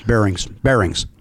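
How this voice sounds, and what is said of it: Chicago accent on one word. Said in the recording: “Boy, that's a Chicago accent.”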